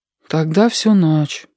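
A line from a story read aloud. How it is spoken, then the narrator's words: Sad. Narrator (Russian): печально сказал Сашка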